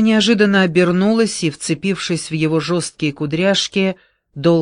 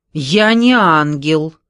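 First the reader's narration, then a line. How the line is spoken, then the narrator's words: Angry, tearful. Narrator (Russian): зло ответила Вера, вытирая глаза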